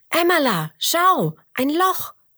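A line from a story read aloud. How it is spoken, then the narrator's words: Calling out. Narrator (German): ruft Roberto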